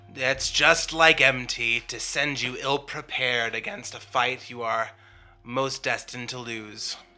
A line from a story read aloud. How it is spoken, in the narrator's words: You hear sort of a little chuckle, and he says